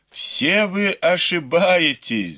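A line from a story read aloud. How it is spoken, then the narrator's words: Laughing. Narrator (Russian): засмеялся Бао Юй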